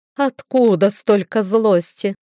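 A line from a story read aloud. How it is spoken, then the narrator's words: Genteel snort. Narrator (Russian): светски фыркнула Риора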